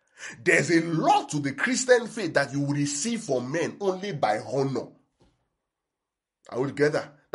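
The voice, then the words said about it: Shouting preacher delivery. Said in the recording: “you see me shouting the way I'm shouting.”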